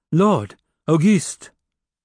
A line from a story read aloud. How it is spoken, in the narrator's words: she called out loudly in the silence of the chapel